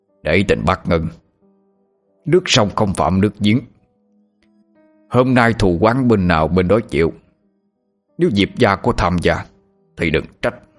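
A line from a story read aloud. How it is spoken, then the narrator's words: Harsh, stern. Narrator (Vietnamese): Viễn Từ đại sư gằn giọng nói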